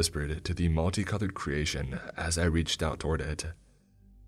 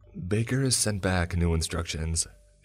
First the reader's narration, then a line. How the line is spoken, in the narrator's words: she said, her voice shaking